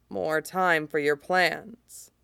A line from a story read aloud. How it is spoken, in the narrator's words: says quietly, with a faint smile